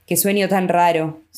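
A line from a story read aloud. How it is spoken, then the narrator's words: Sigh. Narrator (Spanish): suspiró Kismine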